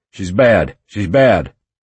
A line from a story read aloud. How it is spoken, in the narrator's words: Stryker shouted